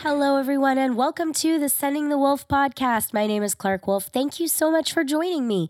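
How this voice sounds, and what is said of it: Voice sounds sick. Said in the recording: “If you can't hear it in my voice, yes, I am sick again”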